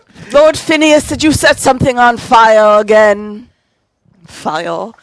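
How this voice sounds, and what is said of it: Shifting mix of put-on accents. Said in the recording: “She's multi-accented. ... Did you just pick one accent?”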